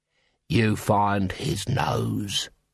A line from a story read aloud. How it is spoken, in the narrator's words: he hissed